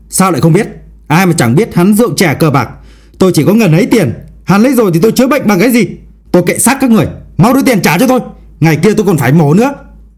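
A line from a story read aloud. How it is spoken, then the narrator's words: Loud yelling. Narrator (Vietnamese): Người đàn ông quát lớn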